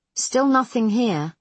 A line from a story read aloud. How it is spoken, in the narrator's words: Foss says